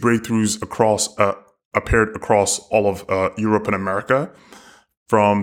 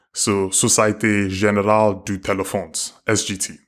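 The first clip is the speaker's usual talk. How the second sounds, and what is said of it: Poor put-on French accent. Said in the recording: “Your French accent is terrible.”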